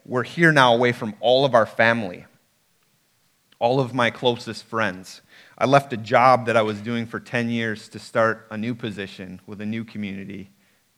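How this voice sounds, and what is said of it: Wisconsin accent. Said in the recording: “being both born and raised in Wisconsin, maybe you can hear the accent already.”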